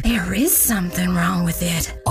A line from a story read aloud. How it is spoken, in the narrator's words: others whispered back